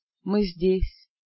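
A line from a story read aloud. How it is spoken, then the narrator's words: Barely audible whisper. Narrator (Russian): едва слышно прошептали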